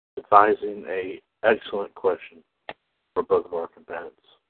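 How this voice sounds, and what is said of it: Golf announcer voice. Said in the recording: “I'm talking like a golf announcer.”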